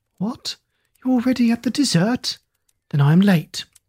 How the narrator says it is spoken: exclaimed with a winsome naivete

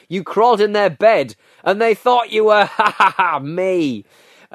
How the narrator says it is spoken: shrieking laughter, intermingled with shouted phrases from Carl

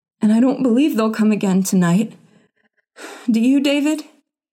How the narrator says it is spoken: she gasped

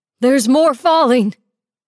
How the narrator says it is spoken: Whoever yelled that sounded like Dad

